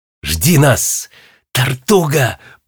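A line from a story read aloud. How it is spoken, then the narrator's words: Whisper. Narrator (Russian): прошептал Гвоздик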